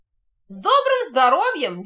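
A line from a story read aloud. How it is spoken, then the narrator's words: Cheerful greeting. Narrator (Russian): весело приветствует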